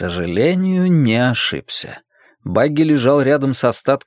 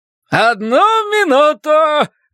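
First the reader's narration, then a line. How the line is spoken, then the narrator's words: Manic cheerful shout. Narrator (Russian): прокричал Терстен безумно веселым голосом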